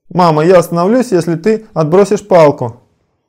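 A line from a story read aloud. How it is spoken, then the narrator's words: Shouting back. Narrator (Russian): Кришна кричал ей в ответ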